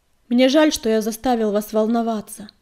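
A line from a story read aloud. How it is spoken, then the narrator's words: Loud, carrying voice. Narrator (Russian): сказал он так громко, чтобы его услышали на краю поляны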